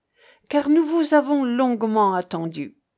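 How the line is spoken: Two men exclaiming. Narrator (French): s'écrièrent les deux chevaliers

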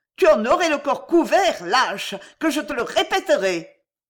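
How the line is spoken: Furious shout. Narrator (French): cria Suzy hors d'elle

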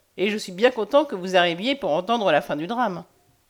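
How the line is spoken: Cheerful. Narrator (French): dit gaiement Hélène Rock

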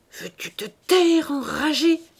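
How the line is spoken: Worried old woman's murmur. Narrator (French): murmura la vieille dame, inquiète de cette nouvelle scène

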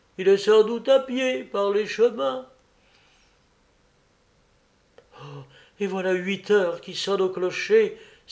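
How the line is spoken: Terrified countess exclaiming. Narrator (French): s'écria la comtesse avec terreur

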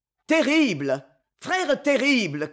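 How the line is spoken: Shouting. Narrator (French): criai-je

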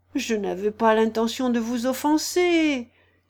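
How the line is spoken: Conciliatory voice. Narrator (French): dit Alice d'une voix conciliante

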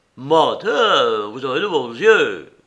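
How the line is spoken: Officer grumbling. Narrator (French): grommela le brigadier

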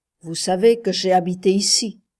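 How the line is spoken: Harsh, deliberately wounding. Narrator (French): commença-t-elle d'une voix dure, comme pour le blesser exprès

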